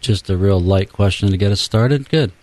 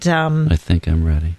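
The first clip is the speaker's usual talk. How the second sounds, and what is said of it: Smooth FM radio announcer voice. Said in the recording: “That's my FM radio voice.”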